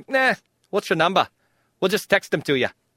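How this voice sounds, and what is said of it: Put-on Australian accent. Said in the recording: “It's my Australian accent.”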